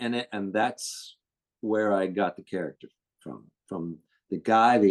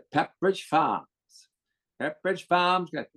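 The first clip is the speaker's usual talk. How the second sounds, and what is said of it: New England accent, Pepperidge Farm actor. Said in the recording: “the actor who did the Pepperidge Farm commercials ... that New England accent where they talk like that”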